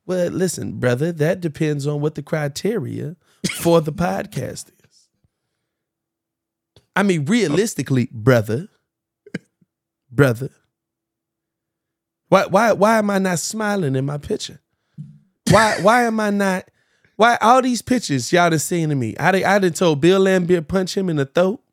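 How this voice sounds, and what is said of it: Imitates another person's voice. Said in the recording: “your Isaiah Thomas impression”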